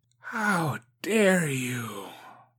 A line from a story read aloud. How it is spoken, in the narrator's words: she whispered, her voice sharp like a knife